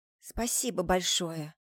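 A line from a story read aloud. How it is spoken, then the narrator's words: Barely audible, embarrassed. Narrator (Russian): еле слышно говорю в смущении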